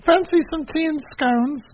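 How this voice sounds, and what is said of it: Put-on British accent. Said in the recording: “You're going to do a British accent, and this is terrible ... Well, that's better.”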